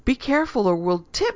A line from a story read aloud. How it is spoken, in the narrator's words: she squealed